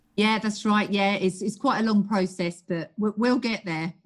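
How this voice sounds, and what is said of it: British accent. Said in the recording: “She's from the UK ... I love your accent”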